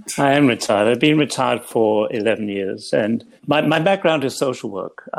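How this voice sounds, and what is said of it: English accent. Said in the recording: “I trained in England, where I grew up ... you may gather all that from my accent, which hasn't changed.”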